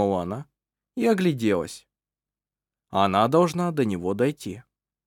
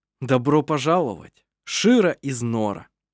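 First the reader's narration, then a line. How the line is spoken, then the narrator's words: Joyful surprised exclamation. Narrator (Russian): Она радостно и удивленно воскликнула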